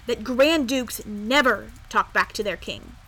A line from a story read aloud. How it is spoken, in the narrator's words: said sternly